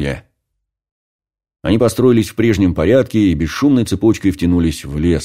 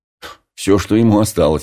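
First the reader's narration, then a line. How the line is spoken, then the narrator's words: Snorting chuckle. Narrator (Russian): хмыкнул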